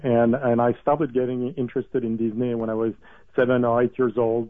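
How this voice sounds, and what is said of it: French accent. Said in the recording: “as you can probably hear from my accent and from my name, I'm French”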